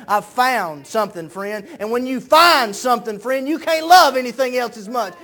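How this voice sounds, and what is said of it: Screaming, shouting preacher. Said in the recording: “why are you screaming? ... I'm not screaming out of anger. I'm screaming”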